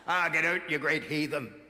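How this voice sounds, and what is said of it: Put-on Northern Irish accent. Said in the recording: “Great Northern Irish accent.”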